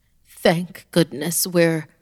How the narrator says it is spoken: Laelith gasped

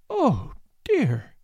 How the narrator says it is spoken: she moaned

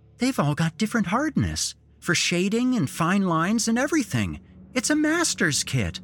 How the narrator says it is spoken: exclaiming

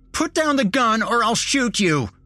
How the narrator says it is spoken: Nick yelled at me

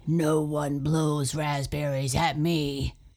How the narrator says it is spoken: he roared

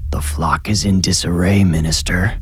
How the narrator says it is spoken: Arthur hissed

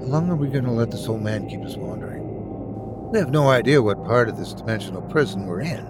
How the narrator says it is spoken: mutter

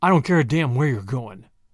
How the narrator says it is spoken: growled Tommy

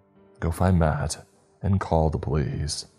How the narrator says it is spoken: my voice wavered as I spoke

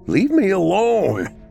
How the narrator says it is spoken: screamed

